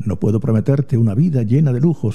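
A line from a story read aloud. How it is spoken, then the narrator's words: Plain. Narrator (Spanish): dijo Adrián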